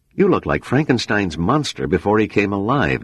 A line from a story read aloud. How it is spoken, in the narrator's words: Donner said